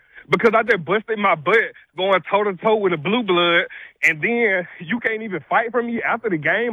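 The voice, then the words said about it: Out of breath, heated rant. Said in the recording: “I can tell ... out of breath. ... is out of breath.”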